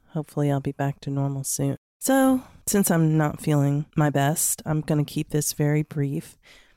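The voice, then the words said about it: Voice sounds different, under the weather. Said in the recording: “Sound a little different. I've got a bug, so that's why my voice sounds like this.”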